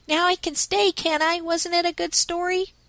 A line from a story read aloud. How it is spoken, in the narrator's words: cried Rob in high feather at his superb success